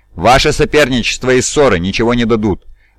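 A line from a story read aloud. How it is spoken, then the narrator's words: Even, stern voice. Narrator (Russian): начал ровным и строгим голосом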